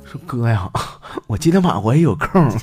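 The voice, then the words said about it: Quiet, hushed voice. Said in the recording (Chinese): “小声跟我说”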